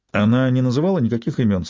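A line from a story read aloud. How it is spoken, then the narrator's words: Plain question. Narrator (Russian): спросил Майрон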